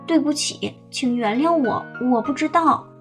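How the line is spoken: Guilty stammering. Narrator (Chinese): 华提尼知道自己错了，他结结巴巴地说

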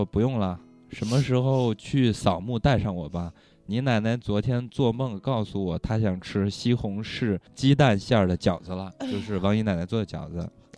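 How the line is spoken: Old woman sighing. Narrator (Chinese): 王姨奶奶就叹了口气说

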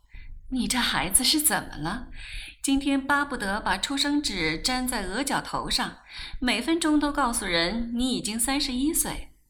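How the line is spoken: Laughing question. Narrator (Chinese): 黄太太一边问一边笑

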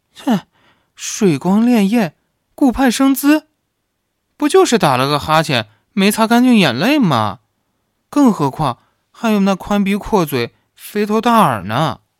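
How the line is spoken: Sighing. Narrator (Chinese): 故乡又叹息说道

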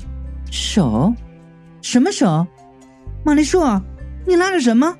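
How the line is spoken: Very puzzled. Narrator (Chinese): 云美的声音非常疑惑

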